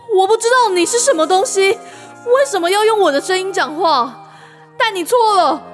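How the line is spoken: Finally shouting. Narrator (Chinese): 丹影终于大喊出声

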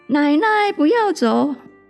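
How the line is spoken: Child calling out again. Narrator (Chinese): 孙子又喊

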